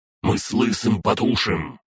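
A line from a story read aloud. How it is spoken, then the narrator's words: Barking dragoness. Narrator (Russian): рявкнула дракониха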